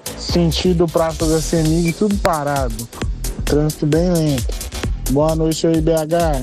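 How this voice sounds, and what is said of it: Dispirited, downcast voice. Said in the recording (Portuguese): “tá até com a voz desanimada.”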